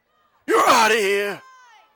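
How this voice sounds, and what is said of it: Umpire-style shouted call. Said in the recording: “his best umpire impersonation.”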